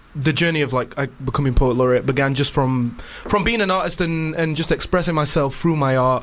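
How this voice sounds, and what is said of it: Northern English Sheffield accent. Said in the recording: “another accent, apart from a London accent ... I've got that northern twang ... Sheffield”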